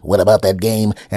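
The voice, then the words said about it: Silly imitated bug voice. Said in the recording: “do my best bug impression”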